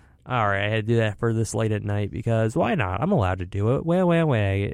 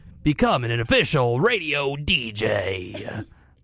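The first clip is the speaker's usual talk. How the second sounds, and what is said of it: Exaggerated radio DJ voice. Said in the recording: “my true quote-unquote DJ voice”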